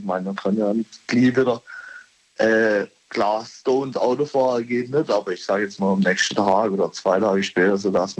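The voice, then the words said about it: Strong regional German dialect. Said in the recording (German): “Dialekt oder hast du was getrunken? ... Ja, das ist unser Dialekt.”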